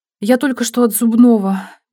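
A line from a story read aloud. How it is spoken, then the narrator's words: Sad. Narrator (Russian): печально сказала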